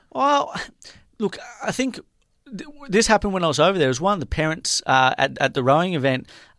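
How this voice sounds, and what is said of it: Australian accent. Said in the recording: “my accent, which is pretty obvious when you're immersed in America ... I'm from Australia”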